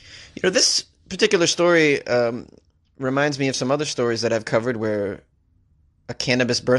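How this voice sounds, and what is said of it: Usual voice. Nothing is said of it.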